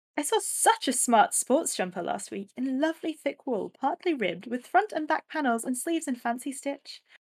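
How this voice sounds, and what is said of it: Put-on posh accent. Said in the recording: “put on a posh voice”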